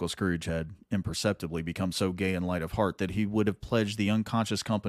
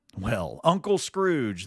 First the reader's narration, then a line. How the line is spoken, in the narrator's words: they cried